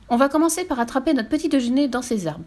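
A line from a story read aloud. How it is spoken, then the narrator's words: Plain. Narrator (French): dit Fifi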